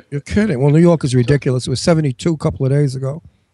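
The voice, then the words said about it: Brooklyn accent. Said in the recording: “I tried to get rid of my Brooklyn accent. Didn't work. ... Brooklyn's very charming. ... It's a charming accent.”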